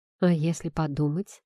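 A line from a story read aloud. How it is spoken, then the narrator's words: Whispered close to ear. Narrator (Russian): прошептал ей почти на ухо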